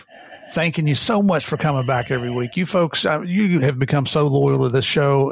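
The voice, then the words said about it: Rural American hillbilly accent. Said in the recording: “this redneck hillbilly ... most of you think I have a funny accent”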